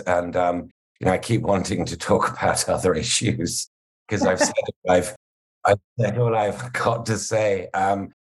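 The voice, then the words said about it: Speaks with a noticeable accent. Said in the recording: “partly because of my accent”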